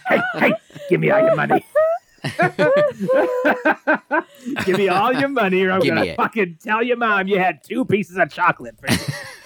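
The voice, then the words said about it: Put-on gangster character voice. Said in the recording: “talking like an old Jewish lady? ... That was my gangster. ... Yeah, that was gangster.”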